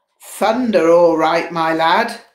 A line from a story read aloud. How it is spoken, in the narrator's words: Paltrow yelled